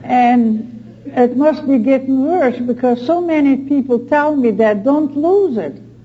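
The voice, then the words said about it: Speaks with a regional accent. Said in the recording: “never lose your accent.”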